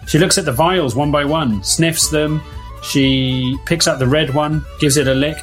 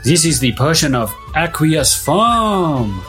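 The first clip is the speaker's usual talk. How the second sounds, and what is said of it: Poor mock Mexican accent. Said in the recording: “Aqueous is a great word to say in a mock Mexican accent. This is the worst Mexican accent anyone has ever”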